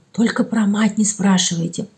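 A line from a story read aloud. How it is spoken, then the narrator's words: Whispered. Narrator (Russian): шепнула Томка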